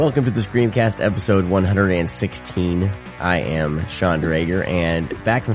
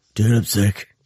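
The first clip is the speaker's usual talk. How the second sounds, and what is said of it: Imitates another person's sick voice. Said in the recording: “I read the text in your sick voice.”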